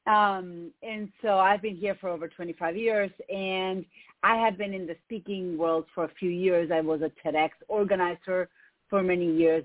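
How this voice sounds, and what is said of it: Argentine Spanish accent in English. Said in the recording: “if you hear an accent, it's because I have one. I'm from Argentina.”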